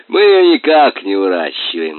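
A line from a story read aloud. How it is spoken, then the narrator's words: Laughing. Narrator (Russian): засмеялся Аким Ильич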